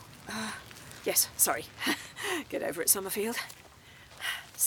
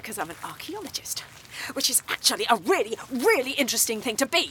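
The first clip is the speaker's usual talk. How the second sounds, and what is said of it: Emotional, heated delivery. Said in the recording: “You're getting emotional again.”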